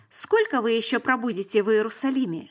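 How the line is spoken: Plain. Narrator (Russian): спросил он

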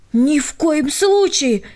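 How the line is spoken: Agitated. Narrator (Russian): взволнованно сказала Дина

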